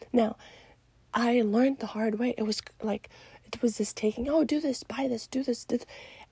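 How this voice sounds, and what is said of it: Tired-sounding voice. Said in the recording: “my voice is kind of tired, it's like changes in the morning”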